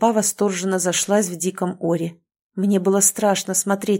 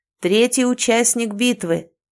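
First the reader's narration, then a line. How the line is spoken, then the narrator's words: Loud, enthusiastic announcing. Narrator (Russian): громко и воодушевленно вещал распорядитель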